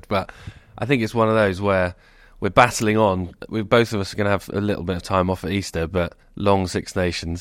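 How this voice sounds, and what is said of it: Congested voice from a cold. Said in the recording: “Just post-Six Nations cold. You can probably hear it in my voice... my sniffling”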